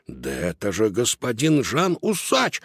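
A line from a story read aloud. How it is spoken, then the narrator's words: Exclamation. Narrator (Russian): воскликнул Додо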